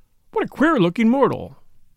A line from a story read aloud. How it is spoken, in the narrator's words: an English voice behind him exclaimed in a very audible tone